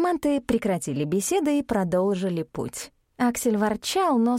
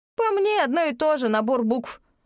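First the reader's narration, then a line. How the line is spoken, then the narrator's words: Scoffing. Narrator (Russian): фыркнул друид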